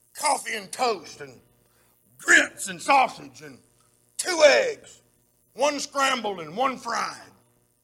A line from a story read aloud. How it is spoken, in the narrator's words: he kind of growled at her and he said